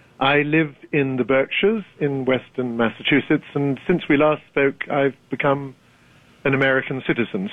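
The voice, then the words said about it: British accent. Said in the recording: “despite your accent ... Has any Brit ever lost his accent?”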